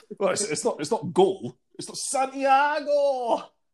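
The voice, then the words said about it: Poor put-on Newcastle accent. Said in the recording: “That was the worst accent. ... I've never been good at the Newcastle accent.”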